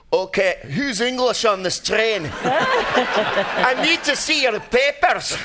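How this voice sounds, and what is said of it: Put-on Scottish accent. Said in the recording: “Nobody can do a Scottish accent. That's amazing. ... Really good.”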